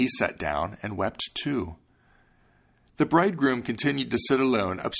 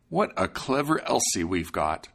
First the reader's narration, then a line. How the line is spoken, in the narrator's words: he exclaimed